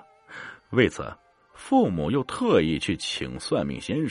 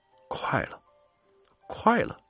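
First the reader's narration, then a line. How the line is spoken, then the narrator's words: Murmuring. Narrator (Chinese): 嘴里喃喃道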